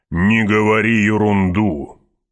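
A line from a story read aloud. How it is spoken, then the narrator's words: Grumbling baron. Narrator (Russian): пробурчал барон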